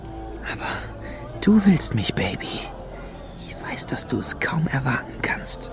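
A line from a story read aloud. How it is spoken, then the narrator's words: Whisper. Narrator (German): flüsterte er Lady Luna zu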